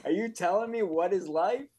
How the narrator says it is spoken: She screamed

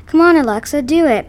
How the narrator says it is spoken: my dad yelled

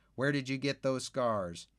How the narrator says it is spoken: the Mason children giggle, and one of the boys, the younger one, I think, says

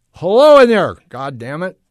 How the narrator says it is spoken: He shouted

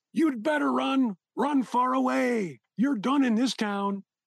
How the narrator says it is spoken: The three men shouted after him

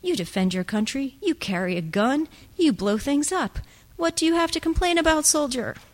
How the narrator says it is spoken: Kit laughed with his mouth full

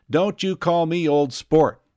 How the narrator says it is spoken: cried Tom

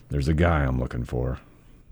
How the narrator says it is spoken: muttered

